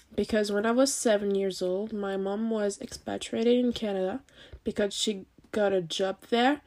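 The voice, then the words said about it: Canadian accent. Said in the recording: “moved to Canada for 5 years. It's where I got this gorgeous accent.”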